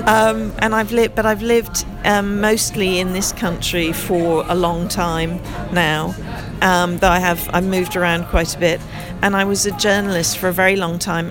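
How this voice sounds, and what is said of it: American accent, somewhat Irish-sounding. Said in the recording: “I'm originally American, which is why I have the strange accent. ... And it's a bit like Irish.”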